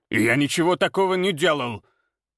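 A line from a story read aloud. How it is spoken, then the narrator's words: Snapping. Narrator (Russian): огрызнулся Ефим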